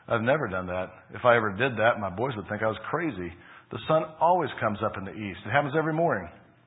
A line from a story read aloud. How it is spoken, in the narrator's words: chuckled